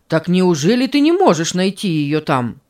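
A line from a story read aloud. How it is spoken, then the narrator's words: Exclamation. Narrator (Russian): воскликнул Карл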